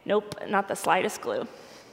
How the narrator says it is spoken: often under my breath, I'll say

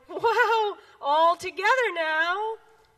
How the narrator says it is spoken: frog cried

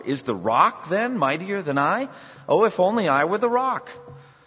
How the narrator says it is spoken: The cloud was amazed at the sight and cried in wonder

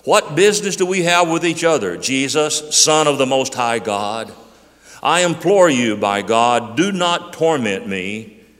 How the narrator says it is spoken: shouting with a loud voice, he said

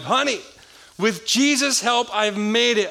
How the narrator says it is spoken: cried

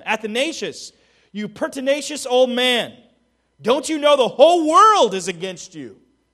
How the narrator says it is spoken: The ruler of the known world shouted at him

